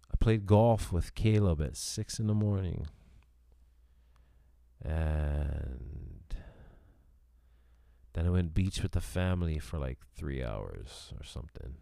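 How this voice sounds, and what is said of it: Hoarse, worn-out voice. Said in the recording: “my voice is kind of fucking gone ... I just noticed that sound like shit”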